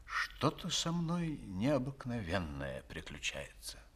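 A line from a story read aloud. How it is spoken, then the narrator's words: Pensive mutter. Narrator (Russian): Кранкебюль пробормотал в задумчивости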